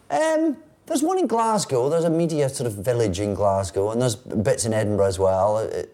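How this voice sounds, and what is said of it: Scottish accent. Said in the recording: “a Scottish accent is also a British accent ... I've probably done an English accent more than I've used my own accent professionally”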